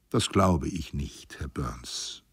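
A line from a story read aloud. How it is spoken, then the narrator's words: Plain. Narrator (German): sagte ich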